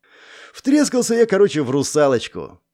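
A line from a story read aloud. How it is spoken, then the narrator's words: Sighing. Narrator (Russian): Тоха вздохнул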